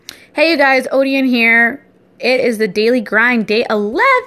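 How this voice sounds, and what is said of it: Excited, high-pitched voice. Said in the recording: “why did your voice just get really high pitched? But I get excited really easily.”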